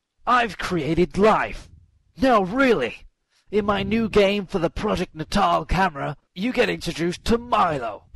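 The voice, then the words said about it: Imitates another person's voice. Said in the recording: “I do a little Peter Molyneux impression”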